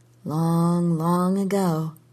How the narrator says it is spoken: she murmured

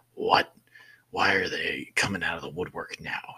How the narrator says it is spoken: he said in a seething voice

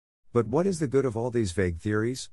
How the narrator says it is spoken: cried the banker impatiently

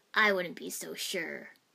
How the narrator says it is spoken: Zabuza rasped right behind me

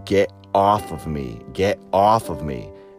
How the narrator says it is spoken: said in my head as fiercely as I could

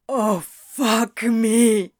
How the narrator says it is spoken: Crowley gasped

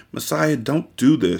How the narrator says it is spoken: she whispered desperately as a single tear slid down her cheek

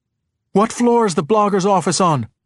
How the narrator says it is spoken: shouted

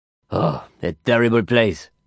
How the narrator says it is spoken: he sighed

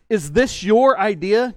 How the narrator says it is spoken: Jesus asked

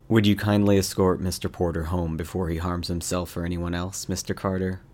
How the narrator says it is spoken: Wren spoke calmly

